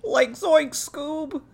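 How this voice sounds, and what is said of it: Imitation of Shaggy cartoon voice. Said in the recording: “pretty good Shaggy impression”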